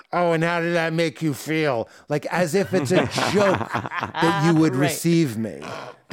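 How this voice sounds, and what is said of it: Put-on Boston accent. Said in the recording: “your Boston accent requires you sticking your tongue through your teeth”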